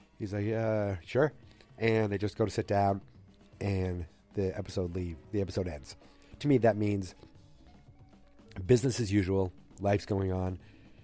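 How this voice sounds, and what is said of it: Congested, deeper voice. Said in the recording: “I sound like I'm fully filling up ... I've been battling a cold ... my voice is a little deeper, a little cooler ... I've got a little deeper voice”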